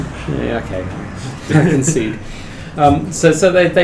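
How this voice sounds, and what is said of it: Usual voice. Nothing is said of it.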